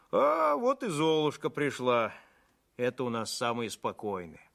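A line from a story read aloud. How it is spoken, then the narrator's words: Sighing. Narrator (Russian): Вздохнул он и произнес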